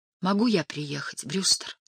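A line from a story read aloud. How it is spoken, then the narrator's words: Whispered. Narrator (Russian): прошептала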